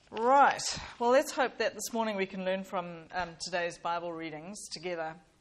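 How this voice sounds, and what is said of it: Slightly hoarse, croaky voice. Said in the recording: “I've got a bit of a frog in my throat”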